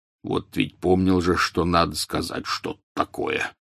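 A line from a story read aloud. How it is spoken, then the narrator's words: Muttered. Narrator (Russian): пробормотал Хагрид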